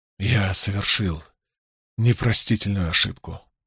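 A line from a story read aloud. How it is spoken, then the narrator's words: Young man muttering. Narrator (Russian): пробормотал юноша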